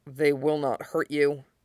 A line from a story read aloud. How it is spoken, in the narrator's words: Fenris murmured